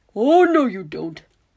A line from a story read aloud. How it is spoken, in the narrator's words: Horace barks, interrupting her mid-sentence